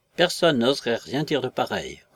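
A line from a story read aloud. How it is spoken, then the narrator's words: Furious, trailing into doubtful murmur. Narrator (French): commença avec fureur le colonel, dont la phrase s'acheva en un murmure dubitatif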